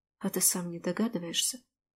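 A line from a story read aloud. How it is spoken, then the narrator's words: Muttering female voice. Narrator (Russian): Пробормотала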